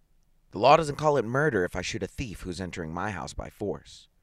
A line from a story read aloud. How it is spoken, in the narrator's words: said harshly